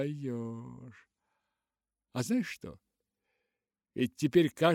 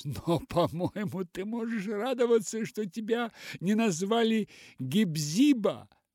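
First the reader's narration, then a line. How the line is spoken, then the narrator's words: Laughing. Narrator (Russian): смеясь, сказала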